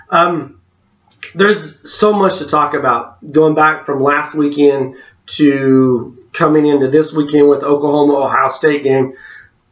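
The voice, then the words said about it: Rough, congested voice. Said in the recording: “forgive my voice ... I've been fighting a head cold.”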